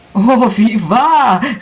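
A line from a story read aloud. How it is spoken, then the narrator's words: Overflowing emotional exclamation. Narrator (German): rief ich aus mit vollem überströmenden Gefühl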